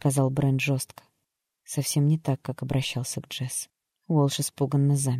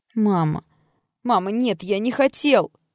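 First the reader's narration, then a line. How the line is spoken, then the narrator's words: Whimpered. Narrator (Russian): заскулил Уолш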